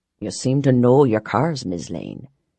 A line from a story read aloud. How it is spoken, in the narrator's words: Barons murmured